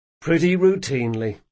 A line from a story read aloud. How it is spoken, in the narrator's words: sighed Jean